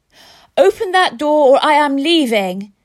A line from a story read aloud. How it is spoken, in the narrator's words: I yelled